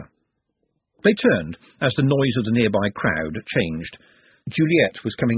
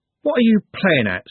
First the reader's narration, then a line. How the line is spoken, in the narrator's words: said Trev, angrily